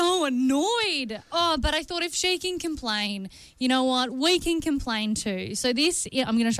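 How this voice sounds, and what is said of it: Usual voice. Nothing is said of it.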